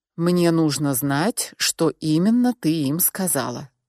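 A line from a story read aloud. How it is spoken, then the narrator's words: Calm insistent man. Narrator (Russian): спокойно, но настойчиво повторил мужчина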